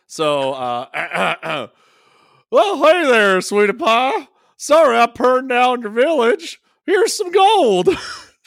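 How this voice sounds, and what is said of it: NASCAR-style character voice. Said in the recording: “I've been working on my NASCAR impression.”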